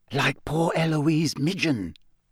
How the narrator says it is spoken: said Hannah Abbott, a Hufflepuff, in a hushed voice

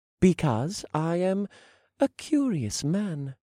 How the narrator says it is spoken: I said in the politest voice I could muster

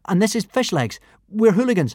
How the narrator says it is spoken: stammered Hiccup

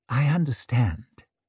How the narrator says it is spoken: said Orso gently

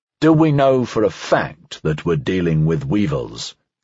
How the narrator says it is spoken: Dreyfus asked

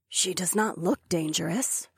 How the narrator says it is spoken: Phila whispered

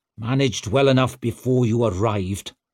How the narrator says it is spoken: growled Calder

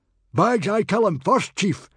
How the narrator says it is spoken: yelled Baggy Bum the beer belly

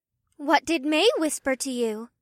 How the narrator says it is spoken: Una asked in a curious voice

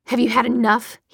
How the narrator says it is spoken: he snarled

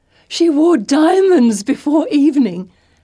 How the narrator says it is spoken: Felicity nearly squeals with delight

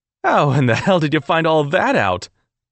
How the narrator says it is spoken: laughed

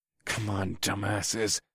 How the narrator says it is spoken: I muttered to myself

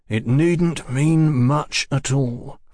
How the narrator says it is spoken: Fraser objected, his voice under firm control

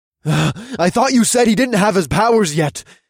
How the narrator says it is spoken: one of the men gasped

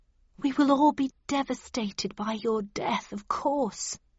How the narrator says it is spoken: whispered Mrs

